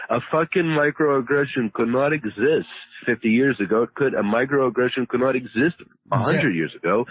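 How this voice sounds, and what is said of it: Hard-to-place mixed accent. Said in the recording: “I kind of have my own little accent. ... I know I've heard this accent somewhere. ... It's my own accent. ... it's like a little mix”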